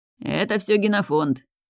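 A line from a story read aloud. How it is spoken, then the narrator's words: Offscreen commentary voice. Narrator (Russian): закадровое сопровождение голосом Артема Стельмаха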